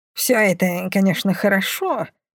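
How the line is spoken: Grumbling. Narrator (Russian): проворчала Бумба

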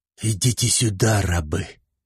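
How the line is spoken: Commanding magical hiss. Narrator (Russian): Применив заклятие подчинения, прошипел Шузмарал

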